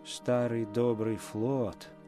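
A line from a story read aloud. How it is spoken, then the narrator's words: Muttered. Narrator (Russian): пробормотал Нат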